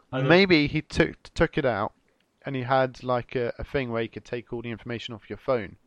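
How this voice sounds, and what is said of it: Usual voice. Nothing is said of it.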